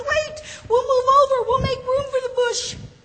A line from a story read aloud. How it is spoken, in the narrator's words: cried the carrots